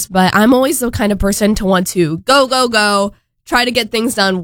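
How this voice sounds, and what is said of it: Congested, slightly off voice. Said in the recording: “I'm a little bit congested. My voice is kind of off”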